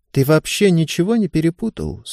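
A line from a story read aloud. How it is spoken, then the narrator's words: Calm question. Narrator (Russian): спокойно спросила Ева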